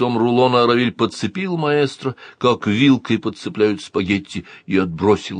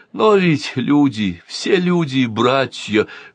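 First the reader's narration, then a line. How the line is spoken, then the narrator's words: Breathed out. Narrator (Russian): выдохнул маэстро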